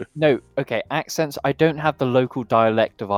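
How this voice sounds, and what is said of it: Usual voice. Nothing is said of it.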